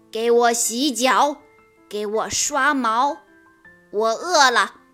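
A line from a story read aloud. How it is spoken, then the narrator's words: Forceful roar. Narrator (Chinese): 他都会用力地大声吼道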